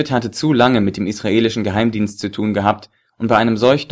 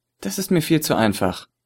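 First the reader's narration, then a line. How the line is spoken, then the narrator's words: Muttered to himself. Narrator (German): murmelte zu sich selbst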